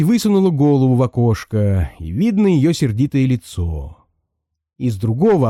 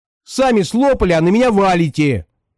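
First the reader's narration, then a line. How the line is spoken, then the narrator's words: Snapped back. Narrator (Russian): огрызнулась Катенька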